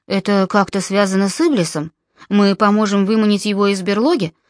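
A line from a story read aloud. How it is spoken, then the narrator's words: Plain. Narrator (Russian): спросил Джон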